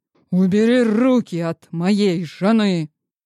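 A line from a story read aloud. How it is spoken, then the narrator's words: Growled. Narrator (Russian): Он прорычал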